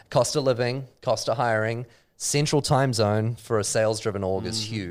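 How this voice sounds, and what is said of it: New Zealand accent. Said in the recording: “It's said way better with a New Zealand accent”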